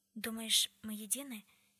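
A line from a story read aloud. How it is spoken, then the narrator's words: Quiet, shaken question. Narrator (Russian): тихо спросила Тесса, все еще не придя в себя от потрясения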